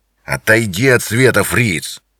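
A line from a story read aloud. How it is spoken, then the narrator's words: Growl. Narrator (Russian): прорычал инспектор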